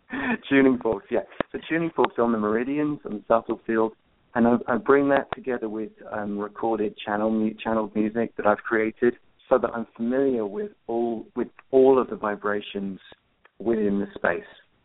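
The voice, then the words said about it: English accent. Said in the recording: “I'd rather like your English accent.”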